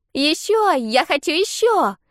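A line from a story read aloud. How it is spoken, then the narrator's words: Excited shouting. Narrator (Russian): кричала Триш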